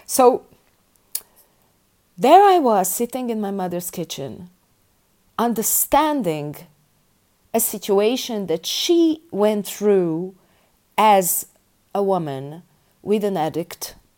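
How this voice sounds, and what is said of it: Emotional, tearful voice. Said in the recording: “I have tears in my eyes ... I'm getting emotional”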